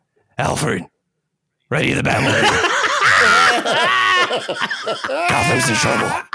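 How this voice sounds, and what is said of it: Bad gravelly Batman voice impression. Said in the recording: “I'm going to do a butchered Christian Bale... terrible Batman impression... I think all of ours is pretty bad”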